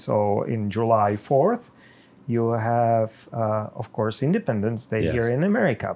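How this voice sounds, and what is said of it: Czech accent in English. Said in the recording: “there is no surprise or hiding it that I'm not Native American ... With my accent ... I am Czech.”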